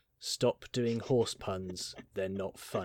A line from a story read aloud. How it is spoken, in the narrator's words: this kid just said, in the most deadpan voice ever